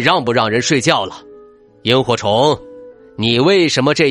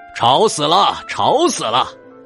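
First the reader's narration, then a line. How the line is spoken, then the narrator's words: Lion roaring. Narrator (Chinese): 狮子咆哮道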